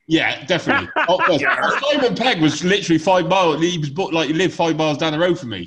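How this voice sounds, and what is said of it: Gloucestershire English accent. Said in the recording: “You might have guessed from my accent, I'm a Gloucester fan.”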